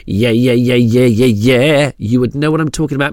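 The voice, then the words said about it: Poor impression of a pop singer. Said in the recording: “that wasn't the best Britney impression,”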